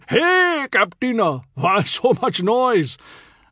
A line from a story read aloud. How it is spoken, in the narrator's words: Picture Singh, alarmed, bellowed